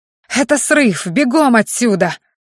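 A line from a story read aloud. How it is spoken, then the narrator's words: Senior student howling. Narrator (Russian): Взвыл кто-то из старшекурсников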